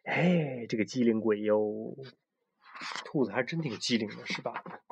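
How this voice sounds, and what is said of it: Quiet, hushed praising voice. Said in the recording (Chinese): “小声称赞着”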